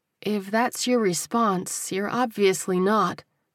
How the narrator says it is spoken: she said gently

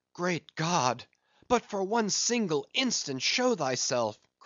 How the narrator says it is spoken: cried Starbuck

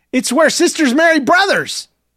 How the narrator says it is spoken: Rachel blurted

